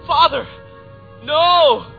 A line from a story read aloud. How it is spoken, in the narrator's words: The feeble young man shouted